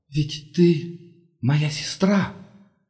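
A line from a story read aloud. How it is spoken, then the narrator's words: Whispered. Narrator (Russian): прошептала Керис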